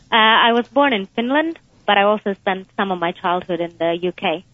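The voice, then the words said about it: Slight foreign accent. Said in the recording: “You have a bit of an accent.”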